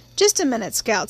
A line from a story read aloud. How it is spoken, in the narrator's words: said Mr